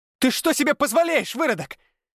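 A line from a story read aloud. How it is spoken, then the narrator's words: Shrieking. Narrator (Russian): Завизжала она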